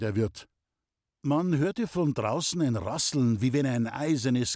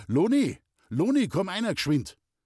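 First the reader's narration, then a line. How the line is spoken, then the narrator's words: Calling out. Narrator (German): der Maler rief hinaus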